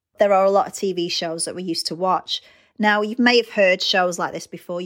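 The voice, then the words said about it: British accent. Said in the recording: “As you can tell by my accent, I'm British”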